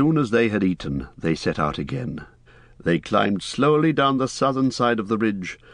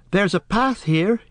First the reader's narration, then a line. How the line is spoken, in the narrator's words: he cried